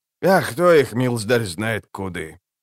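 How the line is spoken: Muttering beekeeper. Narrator (Russian): пробормотал наконец бортник

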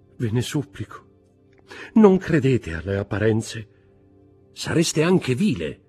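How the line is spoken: Contemptuous shout. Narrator (Italian): gridò Villefort con accento di disprezzo

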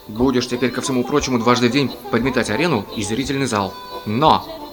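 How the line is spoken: Angry. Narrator (Russian): Господин Брюнкерхоф сердито сказал

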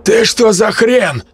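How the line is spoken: Barked. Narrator (Russian): рявкнул

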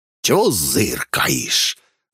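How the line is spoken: Growl. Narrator (Russian): рыкнул он

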